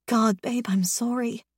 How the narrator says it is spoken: I whisper, my own tears dropping onto his face

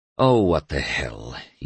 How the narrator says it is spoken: he grunted, like Carl Paschal

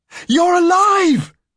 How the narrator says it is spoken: Vesper shouts, breaking into a run

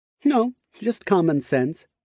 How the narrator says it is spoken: Jace chuckled

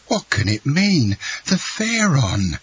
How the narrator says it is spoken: exclaimed Cocklus

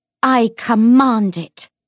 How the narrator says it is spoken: Lucy said fiercely

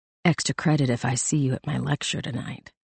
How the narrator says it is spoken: Edwards was right behind her, so close that she could feel his hot breath on her neck when he whispered

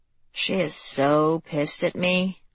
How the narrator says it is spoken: Lexi murmured

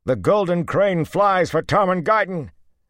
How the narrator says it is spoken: Manigan shouted

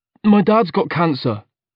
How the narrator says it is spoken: I blurted out

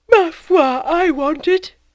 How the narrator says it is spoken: said Madame Homais, yawning at large

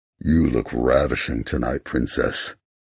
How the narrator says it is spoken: he growls, his voice muffled by the mask

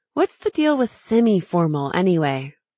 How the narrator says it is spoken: Shay laughed

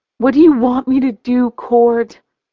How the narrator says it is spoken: I sigh

